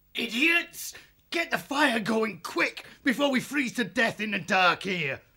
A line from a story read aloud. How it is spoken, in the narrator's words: he spat